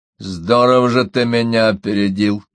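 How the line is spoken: Through gritted teeth. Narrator (Russian): процедил наконец Риф

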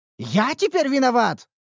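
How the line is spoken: Indignant exclamation. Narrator (Russian): возмущенно воскликнул кузнец

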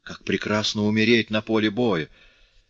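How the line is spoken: Grandiloquent exclamation. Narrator (Russian): с пиндарическим пафосом воскликнул цирюльник

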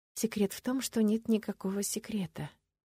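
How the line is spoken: Mumbled. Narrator (Russian): пробормотала я

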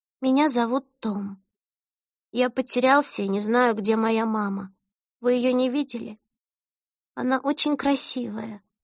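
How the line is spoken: Quiet, shaky-breathed speech. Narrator (Russian): прерывисто вздохнул и тихо произнес

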